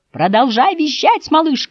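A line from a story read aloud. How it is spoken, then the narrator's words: Shout. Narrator (Russian): крикнула Ма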